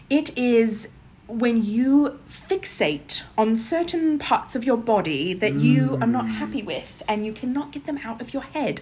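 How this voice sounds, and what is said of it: Put-on accent. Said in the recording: “I don't know why I'm doing this accent, y'all.”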